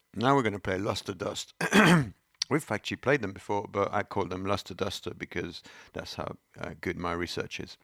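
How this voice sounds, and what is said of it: Voice worn out from a cold. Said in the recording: “my voice is going? Is it going? Oh, I still have a cold.”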